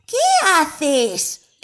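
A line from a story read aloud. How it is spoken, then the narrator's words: Exclamation. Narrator (Spanish): exclamó Yari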